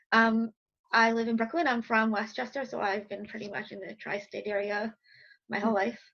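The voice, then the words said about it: New York accent. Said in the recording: “I'm from New York, if you can't hear in my accent.”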